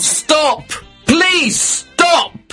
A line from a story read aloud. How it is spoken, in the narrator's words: I shouted